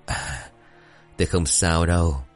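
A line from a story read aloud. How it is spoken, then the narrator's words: Tired man answering with smile. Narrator (Vietnamese): Ông Nhân cảm thấy cơ thể của mình cũng có chút mệt mỏi, thế nhưng ông mỉm cười rồi đáp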